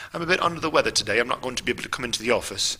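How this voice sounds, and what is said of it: Bad put-on British accent. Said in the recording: “I'll do my British accent, my bad British accent.”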